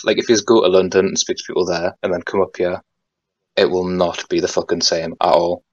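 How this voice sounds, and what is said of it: Geordie English accent. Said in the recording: “My accent ... people call it the Geordie accent ... in my weird accent”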